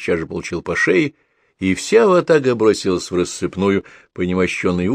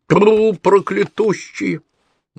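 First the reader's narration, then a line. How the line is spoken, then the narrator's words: Shouted. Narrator (Russian): Женька сделав отчаянное лицо, крикнула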